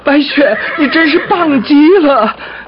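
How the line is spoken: Laughing. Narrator (Chinese): 他笑着说

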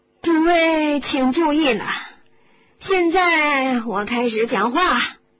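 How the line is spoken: Loud announcement. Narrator (Chinese): 差点没头的妮可大声地说

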